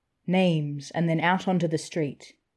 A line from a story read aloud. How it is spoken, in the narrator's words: said harshly